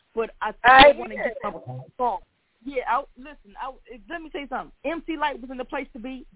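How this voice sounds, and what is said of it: Hoarse, strained voice. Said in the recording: “last night at the concert I was really yelling, and so I'm a little hoarse ... my voice is just rather hoarse”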